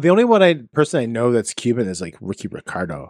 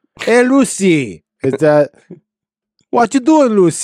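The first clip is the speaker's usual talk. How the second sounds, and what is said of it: Poor attempt at Cuban accent. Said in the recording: “Cuban accent ... That's horrible. That's a horrible accent.”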